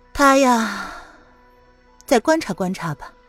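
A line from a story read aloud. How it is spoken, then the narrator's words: Heavy sigh. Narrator (Chinese): 林渊重重的叹了一口气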